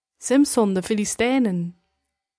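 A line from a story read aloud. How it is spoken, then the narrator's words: Woman calling out. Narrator (Dutch): riep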